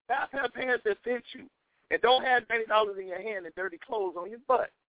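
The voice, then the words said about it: Exaggerated down-south accent. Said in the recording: “Y'all see me using my down south accent.”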